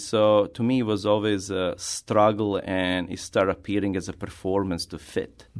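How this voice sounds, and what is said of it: Non-native English accent. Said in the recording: “I do have accent”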